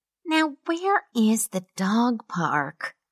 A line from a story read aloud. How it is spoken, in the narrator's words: she muttered